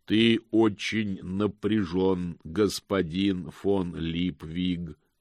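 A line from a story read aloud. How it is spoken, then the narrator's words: Plain. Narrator (Russian): сказала она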